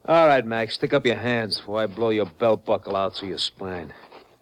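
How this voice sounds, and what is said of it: Brooklyn accent. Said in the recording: “a Brooklyn accent”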